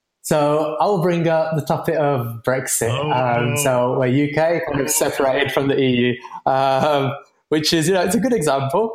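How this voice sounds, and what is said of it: British accent. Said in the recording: “I'm from the UK originally, as you might be able to tell from my accent.”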